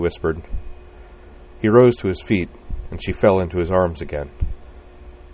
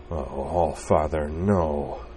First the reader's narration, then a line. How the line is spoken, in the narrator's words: moaned inside